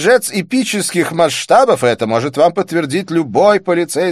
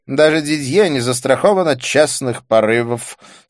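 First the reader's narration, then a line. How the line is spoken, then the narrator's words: Rueful sigh. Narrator (Russian): сокрушенно вздохнул Дидье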